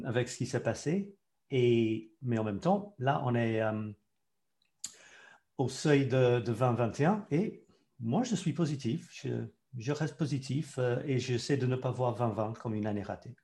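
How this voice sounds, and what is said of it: English accent speaking French. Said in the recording (French): “il y, a, un accent... oui, il a un accent parce qu'à vrai dire, il est anglais”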